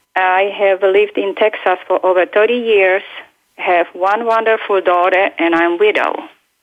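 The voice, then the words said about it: European accent. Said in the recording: “originally from Europe, as you can hear my accent.”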